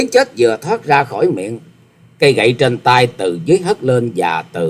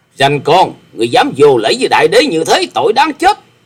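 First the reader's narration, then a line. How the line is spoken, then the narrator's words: Angry snort and shout. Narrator (Vietnamese): Độc Cước Đại Đế hừ lên một tiếng giận dữ quát lên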